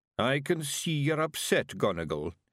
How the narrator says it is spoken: he mumbled

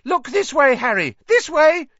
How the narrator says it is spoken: he cried shrilly

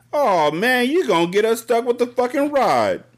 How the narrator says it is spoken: Chubby Matt whined

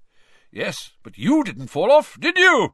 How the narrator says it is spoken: roared Amos genially

